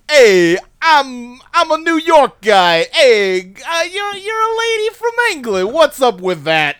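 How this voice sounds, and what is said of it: Exaggerated New York accent. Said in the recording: “I got the most New York accent. It's it's incredible.”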